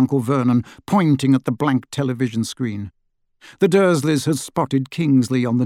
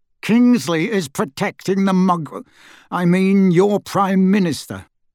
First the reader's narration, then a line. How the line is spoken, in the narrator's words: he said through gritted teeth